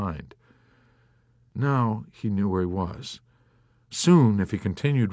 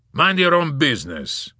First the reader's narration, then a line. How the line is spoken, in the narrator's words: the man barked gruffly